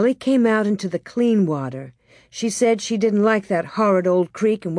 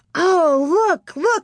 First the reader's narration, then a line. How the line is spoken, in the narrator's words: she shouted, laughing